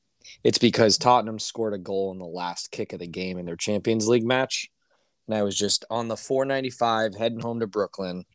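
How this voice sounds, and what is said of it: Hoarse voice. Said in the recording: “if my voice is a little hoarse through this episode... Screaming.”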